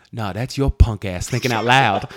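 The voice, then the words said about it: Imitates another person's voice. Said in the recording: “That's my impression of you thinking out loud.”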